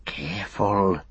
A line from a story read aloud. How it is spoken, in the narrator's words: he whispered